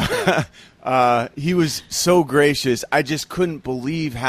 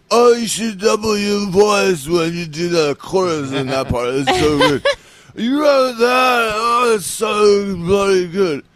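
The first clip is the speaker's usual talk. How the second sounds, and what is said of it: Imitates another person's voice. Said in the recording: “It's a really good impression. ... That might be my best impression.”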